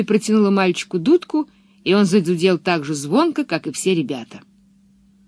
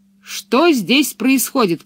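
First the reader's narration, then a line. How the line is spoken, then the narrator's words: Shout. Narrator (Russian): крикнул он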